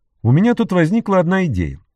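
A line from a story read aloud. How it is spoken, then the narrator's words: Cheerful. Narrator (Russian): сказал он весело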